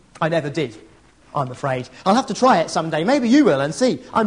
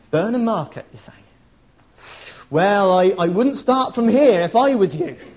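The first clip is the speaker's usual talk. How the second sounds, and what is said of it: Put-on rural English countryside accent. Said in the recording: “put on my best rural accent”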